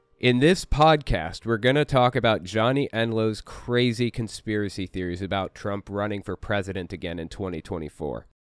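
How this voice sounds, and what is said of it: Sick-sounding voice. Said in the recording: “I apologize for how my voice sounds. I just found out I have COVID the other day.”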